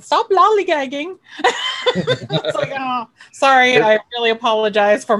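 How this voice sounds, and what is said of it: Poor imitation of English accent. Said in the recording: “my English accent ... I'm really bad at it.”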